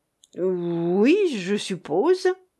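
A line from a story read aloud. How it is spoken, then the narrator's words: Stammering. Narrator (French): balbutia Litvinov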